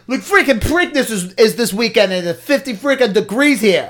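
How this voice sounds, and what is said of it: Generic angry Italian accent. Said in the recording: “I don't know what accent that was supposed to be, because it was definitely not a Baltimore accent ... It's just my generic Italian, pissed off Italian accent.”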